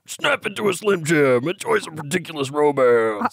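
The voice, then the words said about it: Randy Savage impression. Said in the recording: “When did Randy Savage get here?”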